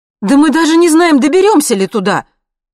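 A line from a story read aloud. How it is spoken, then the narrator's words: Sudden, loud. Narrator (Russian): сказала вдруг Марина громко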